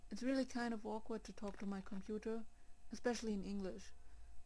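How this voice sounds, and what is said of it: German-accented English. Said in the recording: “now you know what my accent in English sounds like ... normally I talk in German”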